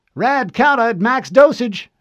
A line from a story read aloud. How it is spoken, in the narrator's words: she called out